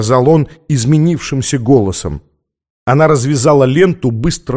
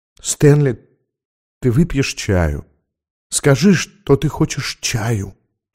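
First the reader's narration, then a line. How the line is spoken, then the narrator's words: Whisper. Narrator (Russian): прошептала она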